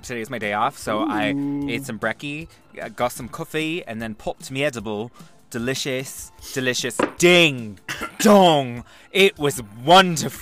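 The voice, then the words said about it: Put-on British accent. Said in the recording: “British accent”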